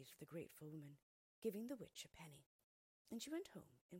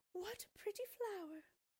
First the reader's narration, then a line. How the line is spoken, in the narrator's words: the woman exclaimed